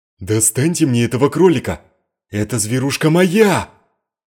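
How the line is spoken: Middle-aged man shouting. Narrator (Russian): пухлый дворянин средних лет закричал

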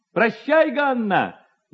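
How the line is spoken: Shouting young man. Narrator (Russian): закричал один из парубков

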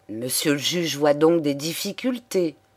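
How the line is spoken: Plain. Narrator (French): demanda-t-il

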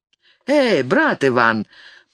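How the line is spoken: Teasing interruption. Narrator (Russian): поддразнивающим голосом перебил Лопухина Бергер

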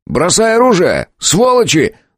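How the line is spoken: Shouting. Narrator (Russian): закричал я

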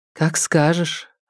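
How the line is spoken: Forced smile. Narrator (Russian): ответила Тереза, выдавив улыбку

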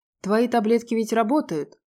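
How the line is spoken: Smug scoffing man. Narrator (Russian): самонадеянно хмыкнул чокнутый профессор

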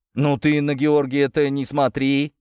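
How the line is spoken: Father's snort. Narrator (Russian): хмыкнул отец

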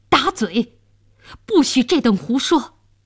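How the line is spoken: Furious official. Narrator (Chinese): 监斩官大怒道

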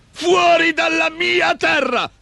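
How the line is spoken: Shrieking. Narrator (Italian): strillò

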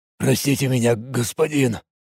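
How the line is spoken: Mumbled under breath. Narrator (Russian): Промямлил себе под нос Мареш

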